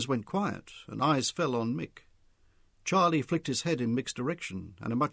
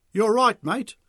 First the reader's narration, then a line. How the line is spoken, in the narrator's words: Mick called loudly to the white man to get above the noise